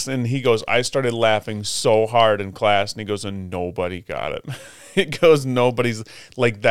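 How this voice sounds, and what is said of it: Usual voice. Nothing is said of it.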